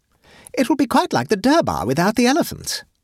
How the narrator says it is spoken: exclaimed an enthusiastic lady

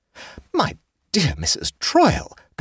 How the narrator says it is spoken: gasped the hostess

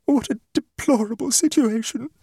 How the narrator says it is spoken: she sobbed

